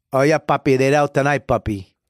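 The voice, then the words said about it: Put-on Puerto Rican accent. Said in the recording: “Can you do a Puerto Rican accent?”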